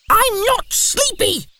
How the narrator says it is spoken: shouted Baby Owl

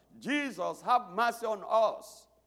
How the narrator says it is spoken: He was met by 10 lepers who began to shout

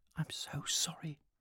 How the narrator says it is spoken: she whispered

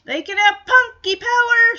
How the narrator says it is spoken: shouts the last part

